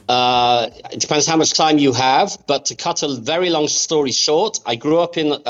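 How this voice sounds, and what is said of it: Speaks with a foreign accent. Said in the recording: “I hear the accent.”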